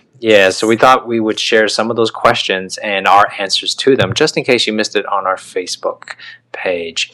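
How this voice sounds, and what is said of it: Dramatic radio announcer voice. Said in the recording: “You're so dramatic. ... Getting my radio voice going.”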